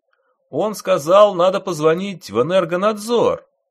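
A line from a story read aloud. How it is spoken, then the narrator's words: Loud repetition. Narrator (Russian): громко повторил мужчина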